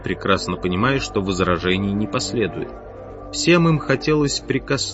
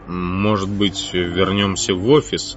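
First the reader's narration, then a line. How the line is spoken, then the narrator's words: Grumbling. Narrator (Russian): проворчал Макьюра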